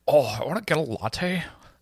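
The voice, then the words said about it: Impression of a TV character. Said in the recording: “impression of her ... it's a very good impression ... Impression of Serena.”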